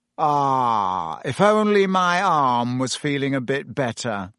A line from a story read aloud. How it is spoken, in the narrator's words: sighed